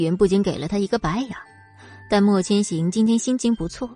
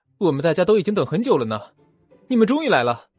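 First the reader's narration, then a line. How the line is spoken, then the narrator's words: Smiling, cheerful. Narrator (Chinese): 四目笑盈盈的说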